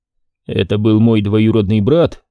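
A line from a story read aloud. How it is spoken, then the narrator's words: Calm. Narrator (Russian): спокойно ответил Болон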